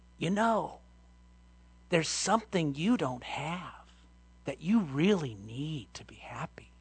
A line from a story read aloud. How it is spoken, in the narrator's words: he whispered in her ear